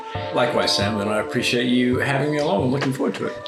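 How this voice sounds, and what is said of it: Mixed New Zealand-British accent. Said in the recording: “slightly strange accent is born in New Zealand, but not actually born in New Zealand. It is born in the UK, bit of time in America, time growing up in New Zealand”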